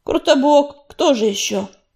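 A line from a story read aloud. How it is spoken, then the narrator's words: Barked. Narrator (Russian): рявкнул огнезвезд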